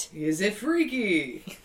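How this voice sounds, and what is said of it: Game show host voice. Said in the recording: “I just did a Pat Sajak voice.”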